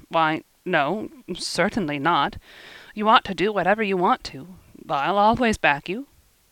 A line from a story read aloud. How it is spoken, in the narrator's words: said in an embarrassed tone